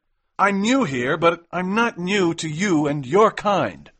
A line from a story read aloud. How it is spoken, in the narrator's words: shouted McMurdo